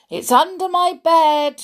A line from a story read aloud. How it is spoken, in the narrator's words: shouted my mum